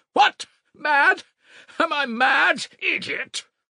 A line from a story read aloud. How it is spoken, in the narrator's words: shrieked